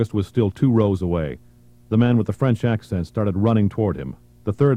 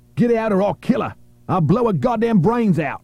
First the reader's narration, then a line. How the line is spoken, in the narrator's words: The pinned terrorist shouted at August